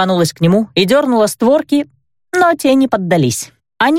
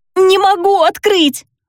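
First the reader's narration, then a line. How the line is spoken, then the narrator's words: Wail. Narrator (Russian): взвыла я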